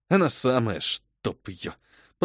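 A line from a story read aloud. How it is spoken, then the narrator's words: Grumble. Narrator (Russian): пробурчал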